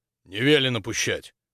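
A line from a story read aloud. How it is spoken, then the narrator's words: Rough curt retort. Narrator (Russian): грубо отрезал солдат с сержантской лентой на плече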